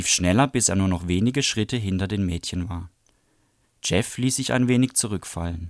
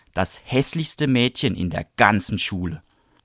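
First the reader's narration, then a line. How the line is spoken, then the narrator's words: Hissing snarl. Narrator (German): fauchte Bradley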